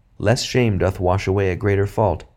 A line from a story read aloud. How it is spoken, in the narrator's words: the master said